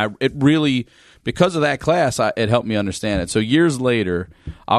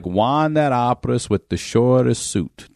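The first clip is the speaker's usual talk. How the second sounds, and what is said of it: Put-on Italian accent. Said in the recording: “What's with that accent? ... It was like an Italian fucking accent”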